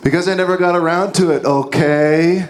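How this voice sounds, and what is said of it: Impersonation of a film character. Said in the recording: “can do a much better impersonation than I can”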